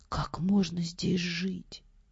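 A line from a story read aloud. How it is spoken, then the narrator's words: Whisper. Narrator (Russian): одна из них шепнула другой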